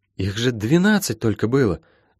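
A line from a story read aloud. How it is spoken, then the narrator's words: Helpless babbling. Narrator (Russian): Беспомощно и совсем не о том пролепетала Молли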